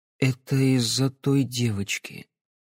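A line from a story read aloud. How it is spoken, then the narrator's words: Quiet speech. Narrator (Russian): тихо проговорил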